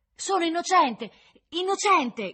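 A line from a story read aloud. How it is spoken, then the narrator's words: Sudden loud shout. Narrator (Italian): gridò un tratto per tutta la sala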